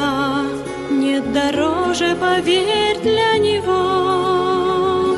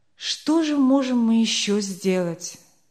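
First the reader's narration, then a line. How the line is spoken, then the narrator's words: Dejected question. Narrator (Russian): спросил Лангенстер уныло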